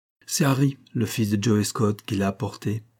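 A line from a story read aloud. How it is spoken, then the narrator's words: Plain. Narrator (French): dit Fanny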